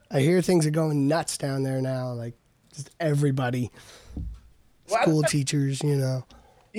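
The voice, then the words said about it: Raspy, hoarse voice. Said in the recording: “my voice is still pretty uh, fucked up ... kind of raspy”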